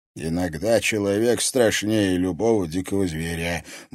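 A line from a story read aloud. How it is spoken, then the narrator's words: Gruff grumble. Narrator (Russian): буркнул Борис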